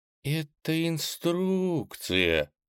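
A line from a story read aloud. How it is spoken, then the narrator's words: Confused drawl. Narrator (Russian): растерянно протянула она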